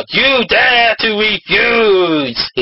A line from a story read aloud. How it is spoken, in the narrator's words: he roared